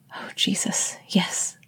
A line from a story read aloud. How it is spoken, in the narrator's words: gasped